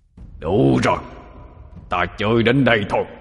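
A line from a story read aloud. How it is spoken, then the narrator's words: Frenzied roar. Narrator (Vietnamese): Lão tổ điên cuồng mà gầm lên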